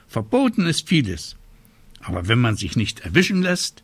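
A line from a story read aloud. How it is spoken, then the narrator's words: Little witch calling out. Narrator (German): rief die kleine Hexe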